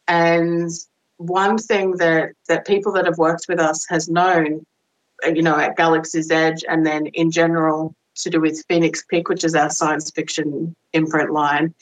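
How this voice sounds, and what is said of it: Australian accent. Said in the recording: “I'm Australian. It filters in every now and then. ... Apparently being in this country, you know, as long as I've been, like 10 years plus, does not mean you lose your accent.”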